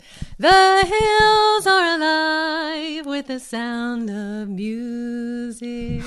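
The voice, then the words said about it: Singing in falsetto. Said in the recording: “falsetto”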